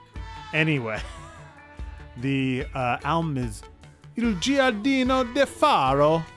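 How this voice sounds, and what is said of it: Put-on Italian accent, Dracula-like. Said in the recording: “If I try to talk like an Italian, it sounds like fucking Dracula... you can hear it in there. Just a touch of Vlad the Impaler. Count Dracul, Nosferatu”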